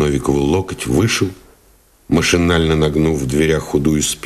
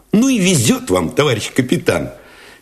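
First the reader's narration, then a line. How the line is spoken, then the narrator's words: Cheerful, admiring exclamation. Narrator (Russian): Весело, даже восхищенно воскликнул Алешин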